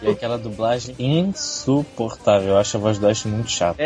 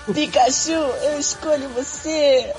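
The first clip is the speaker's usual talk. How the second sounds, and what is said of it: Imitates Ash's cartoon dub voice. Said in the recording (Portuguese): “você tá fazendo a imitação perfeita do Ash”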